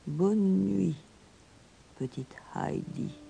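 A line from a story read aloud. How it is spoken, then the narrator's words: Whispered. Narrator (French): chuchota-t-il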